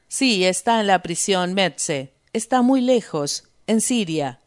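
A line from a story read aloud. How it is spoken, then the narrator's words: Plain. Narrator (Spanish): dijo Rost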